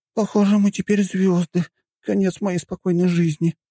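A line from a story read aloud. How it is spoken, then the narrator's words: Groan. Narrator (Russian): простонала Юнна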